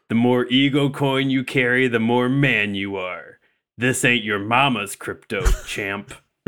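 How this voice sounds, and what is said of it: Duke Nukem character voice. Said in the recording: “I'm doing Duke Nukem today ... This is a really good Duke Nukem impression ... a very good Duke Nukem”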